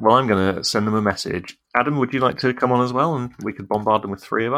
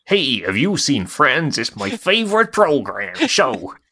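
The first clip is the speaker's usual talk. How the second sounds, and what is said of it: Put-on American accent. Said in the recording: “Another accent tour de force. ... Very excellent at accents”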